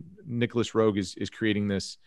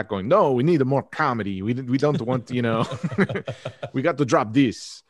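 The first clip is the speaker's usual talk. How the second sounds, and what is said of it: Put-on accent imitating another person. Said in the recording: “what is that accent?”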